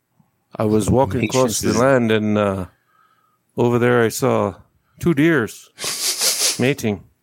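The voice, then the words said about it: Put-on Native American accent, slow. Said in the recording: “a good Native American accent... They speak slower”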